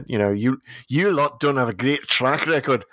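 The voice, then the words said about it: Exaggerated Scottish accent, Peter Capaldi impression. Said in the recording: “I bust out my Scottish impression... Capaldi on Scottish steroids.”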